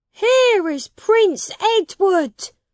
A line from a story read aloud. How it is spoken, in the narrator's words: the people shouted